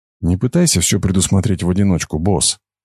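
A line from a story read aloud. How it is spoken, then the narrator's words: Quiet. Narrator (Russian): тихо сказала она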